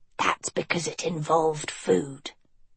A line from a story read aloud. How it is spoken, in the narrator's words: Annadil muttered